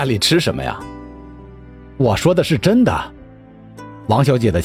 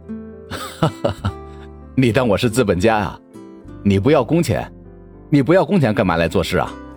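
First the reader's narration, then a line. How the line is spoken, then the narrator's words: Laughing loudly. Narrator (Chinese): 陈谷大笑道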